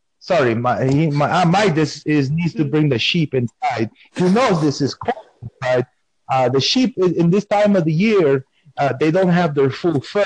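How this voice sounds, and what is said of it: Strong non-native accent. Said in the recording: “have you heard my type of accent? They say I have. I don't think I have accent. This is how I was born... they think that I'm doing accent, but this is just how I speak”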